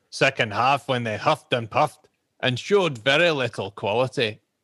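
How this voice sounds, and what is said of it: Aggressive put-on Scottish accent. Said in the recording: “Should I do it in his accent? ... I'm not very good at Phil Hay. ... I don't think he's quite as aggressive as that, is he, Phil? ... I can't do Scottish any other way.”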